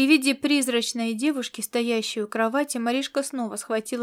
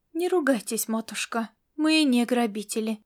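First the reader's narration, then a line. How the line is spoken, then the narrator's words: Soft. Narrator (Russian): мягко проговорила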